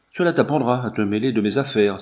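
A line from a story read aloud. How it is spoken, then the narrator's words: Unrepentant exclamation. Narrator (French): s'écria Nigel, sans témoigner le moindre regret de sa sauvagerie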